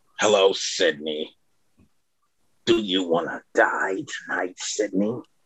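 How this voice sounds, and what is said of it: Horror villain voice with chuckle. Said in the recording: “Ghostface impression ... try to nail the scream ... That's really good. You even have like his chuckle, like his laugh down perfectly.”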